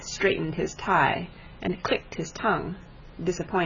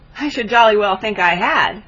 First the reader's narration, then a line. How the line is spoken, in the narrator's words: said Bannister with a laugh